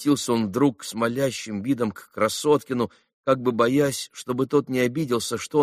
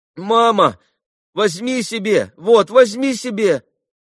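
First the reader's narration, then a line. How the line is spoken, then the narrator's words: Sudden shout. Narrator (Russian): крикнул вдруг Илюша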